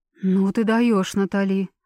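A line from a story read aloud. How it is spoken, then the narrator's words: Shocked exclamation. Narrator (Russian): потрясенно воскликнула Элеонора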